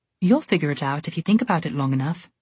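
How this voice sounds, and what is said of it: Charming put-on British accent. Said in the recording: “in a charming British accent”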